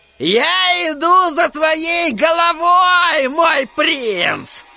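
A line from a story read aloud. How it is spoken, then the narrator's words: Shouting. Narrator (Russian): крикнул он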